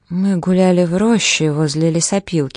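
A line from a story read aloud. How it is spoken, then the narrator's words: Plain. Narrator (Russian): сказала она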